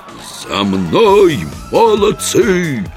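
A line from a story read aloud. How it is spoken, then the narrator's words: Howling like a siren. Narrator (Russian): Пароходной сиреной взвыл Еремеев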